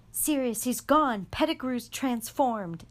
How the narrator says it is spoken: Harry yelled

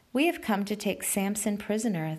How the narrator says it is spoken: they answered

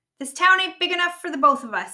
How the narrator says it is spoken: he yelled

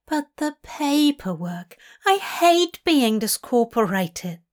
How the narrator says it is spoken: Aziraphale whines

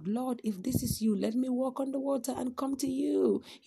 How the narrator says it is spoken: Peter yells out

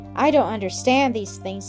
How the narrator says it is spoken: he said

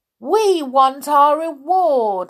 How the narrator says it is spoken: suddenly shouted someone

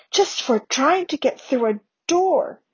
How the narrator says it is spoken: whispered Harry, shocked

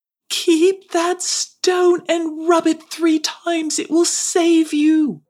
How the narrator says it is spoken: Daru watched from afar and called out after her

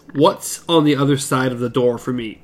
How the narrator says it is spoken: Eddie asked the gunslinger quietly

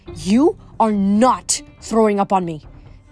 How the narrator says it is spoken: Doris growled

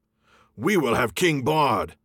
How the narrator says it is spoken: the people near at hand shouted in reply

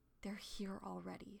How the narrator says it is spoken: whispered

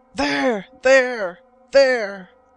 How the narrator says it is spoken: the voice of the half-breed was again heard as he cried out

